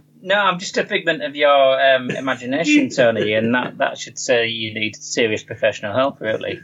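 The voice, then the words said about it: Northern English accent. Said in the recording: “Google have got this accent down to a T ... Siri from the north”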